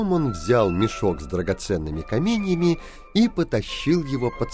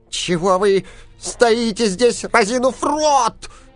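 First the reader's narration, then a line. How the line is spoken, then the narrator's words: Angry shout. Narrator (Russian): закричал гном, от злости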